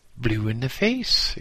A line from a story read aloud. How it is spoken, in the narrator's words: exclaimed